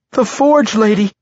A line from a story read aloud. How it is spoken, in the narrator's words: that young drow cried to Berylip